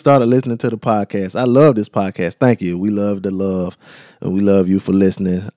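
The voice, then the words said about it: Southern American accent. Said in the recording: “tell me how much you love my southern accent”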